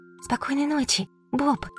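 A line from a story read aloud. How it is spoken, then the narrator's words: Whispered. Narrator (Russian): шептала Бу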